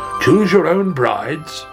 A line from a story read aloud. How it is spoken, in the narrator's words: cried the king